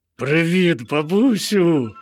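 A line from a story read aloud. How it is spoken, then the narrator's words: Joyful bear cub calling. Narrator (Ukrainian): радісно загукало ведмежа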